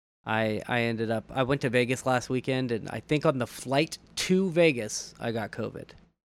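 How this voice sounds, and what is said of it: Slightly raspy voice. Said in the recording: “if you can tell a little bit, my my voice is a little raspy.”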